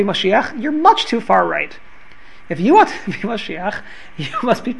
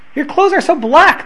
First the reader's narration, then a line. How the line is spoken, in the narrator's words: they cried out in fright